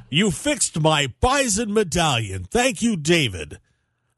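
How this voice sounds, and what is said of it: Put-on royal, regal voice. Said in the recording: “Sound royal and regal. ... Now you sound like a man.”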